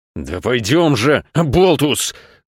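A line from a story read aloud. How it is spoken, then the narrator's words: Wheezing. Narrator (Russian): захрипел папа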